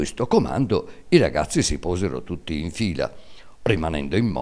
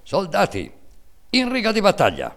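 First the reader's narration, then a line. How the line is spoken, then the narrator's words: Stern military command shout. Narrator (Italian): atteggiandosi a giudice severo e inesorabile, gridando in tono di comando militare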